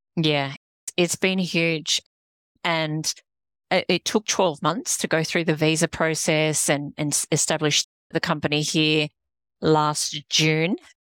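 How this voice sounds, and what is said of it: Australian accent. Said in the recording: “people might just assume from your accent that you're actually in Australia”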